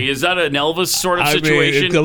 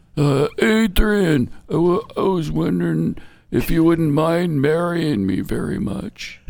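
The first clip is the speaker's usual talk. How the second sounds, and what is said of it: Imitates a movie character's voice. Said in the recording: “my Rocky imitation”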